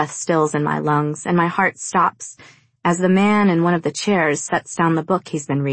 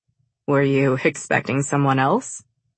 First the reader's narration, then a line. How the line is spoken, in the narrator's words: He asks with a slight chuckle